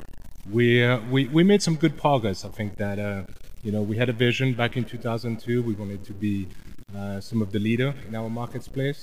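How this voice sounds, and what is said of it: Swiss accent. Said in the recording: “your accent today. It's a Swiss accent.”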